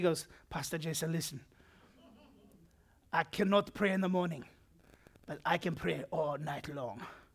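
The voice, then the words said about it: Zimbabwean accent impression of Bishop Tudor Bismarck. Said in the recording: “He's from Zimbabwe... pretty good impression? Yeah, spot on.”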